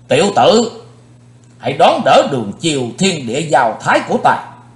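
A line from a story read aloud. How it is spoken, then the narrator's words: Battle shout. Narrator (Vietnamese): Hét dứt lời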